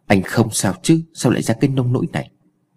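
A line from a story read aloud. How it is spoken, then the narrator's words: Gentle question. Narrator (Vietnamese): Cô nhẹ nhàng hỏi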